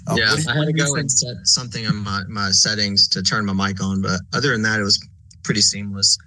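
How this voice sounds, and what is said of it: Texan accent. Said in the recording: “You can probably hear my Texan accent over here.”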